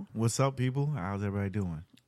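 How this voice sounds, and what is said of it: Radio voice. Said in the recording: “He's all radio voice and shit. Oh, Radio Raheem ass.”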